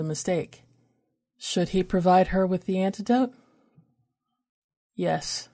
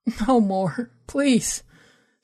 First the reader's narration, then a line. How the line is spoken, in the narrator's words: she whimpered, her heart pounding, her chest rattling as she drew a ragged breath